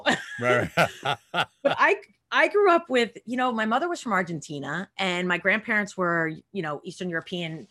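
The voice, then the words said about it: Long Island New York accent. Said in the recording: “I seem like a little Jewish white girl from Long Island ... you seem like a New Yorker ... I thought I lost my accent. He's like, yeah, no.”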